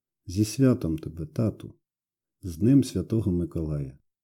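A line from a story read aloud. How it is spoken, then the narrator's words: Whispering into ear. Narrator (Ukrainian): Шепотів я йому у сумісіньке вухо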